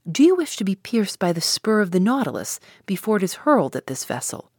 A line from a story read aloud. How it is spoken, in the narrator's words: exclaimed the captain